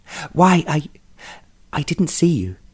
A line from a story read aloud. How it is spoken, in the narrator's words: she stammered